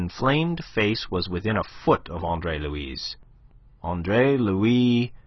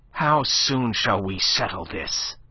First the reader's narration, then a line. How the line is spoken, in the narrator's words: snapped Chabrien, livid with real fury